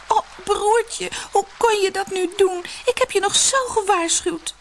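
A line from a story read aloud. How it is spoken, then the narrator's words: Sobbing cry. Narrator (Dutch): Zusje barstte in snikken uit en riep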